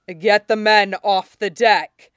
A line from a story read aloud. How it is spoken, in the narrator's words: Shidan roared